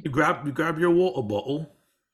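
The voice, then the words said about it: Put-on generic British accent. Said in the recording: “I was doing my best generic British accent ... it was not bad”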